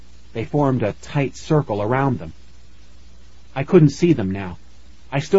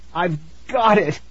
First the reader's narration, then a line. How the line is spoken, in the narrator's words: I groaned